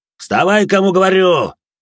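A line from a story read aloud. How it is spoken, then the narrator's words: Barked. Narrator (Russian): рявкнул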